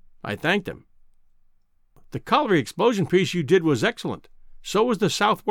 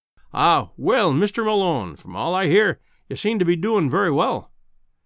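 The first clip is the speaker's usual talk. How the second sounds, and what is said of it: Kindly Scottish accent. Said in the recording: “he said in his kindly Scotch accent.”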